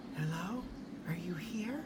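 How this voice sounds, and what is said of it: Quiet, hesitant voice. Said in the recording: “she asked in a quiet voice”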